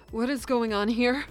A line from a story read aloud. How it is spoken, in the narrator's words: She gasped